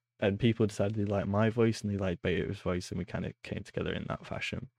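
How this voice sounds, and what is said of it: British accent. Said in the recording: “I was the only British person in the community ... you can say anything in a British accent. I think it sounds good ... it just adds that little British infliction onto it”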